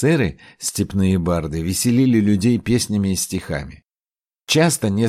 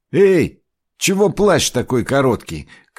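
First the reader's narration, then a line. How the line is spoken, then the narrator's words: Shout while moving. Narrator (Russian): крикнул Ахпас на ходу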